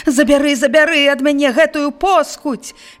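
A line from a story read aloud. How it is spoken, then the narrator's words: Shouting. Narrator (Belarusian): крычаў ён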